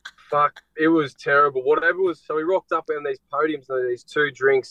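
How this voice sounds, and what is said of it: Speaks with a regional accent. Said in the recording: “It sounds different with your accent, actually.”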